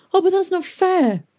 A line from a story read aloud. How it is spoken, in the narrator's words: cried Tom